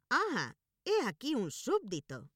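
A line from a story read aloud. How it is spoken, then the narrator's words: King exclaiming. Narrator (Spanish): exclamó el rey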